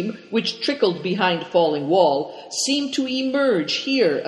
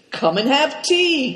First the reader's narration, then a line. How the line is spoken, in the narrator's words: cried Cao Cheng